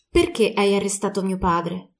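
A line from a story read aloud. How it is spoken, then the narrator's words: Girl's calm tone, hiding hurt. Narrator (Italian): Nonostante la ragazza sentisse l'offesa bruciarle nel petto, gli si rivolse con tono pacato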